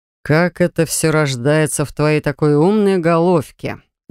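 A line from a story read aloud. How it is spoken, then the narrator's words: Growled close to ear. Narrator (Russian): Зарычал он над моим ухом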